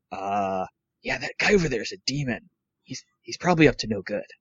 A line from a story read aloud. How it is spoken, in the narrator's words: lean in to whisper